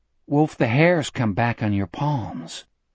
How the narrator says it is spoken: Jack asked in a low voice

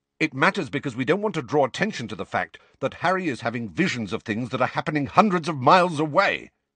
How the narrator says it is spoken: said Sirius angrily

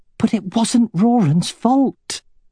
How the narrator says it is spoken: exclaimed Katrina

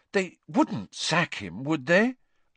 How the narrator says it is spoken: said Hermione anxiously

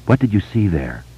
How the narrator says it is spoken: Bev asked him gently

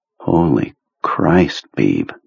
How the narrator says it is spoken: Jonesy said in a low, awed voice

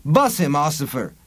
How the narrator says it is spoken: apparition said cheerfully

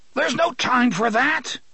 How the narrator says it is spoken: The gunslinger trying to scream and was unable

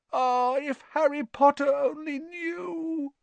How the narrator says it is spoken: Dobby groaned, more tears dripping

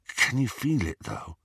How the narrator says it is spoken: Ron asked in a hushed voice

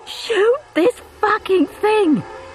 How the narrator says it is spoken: Steve yelled

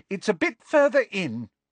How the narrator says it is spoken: Hermione calling loudly over her shoulder

